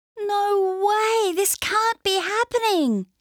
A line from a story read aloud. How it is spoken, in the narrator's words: she cried